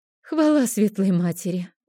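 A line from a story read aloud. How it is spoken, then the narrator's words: Tired exhale. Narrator (Russian): устало выдохнула Розали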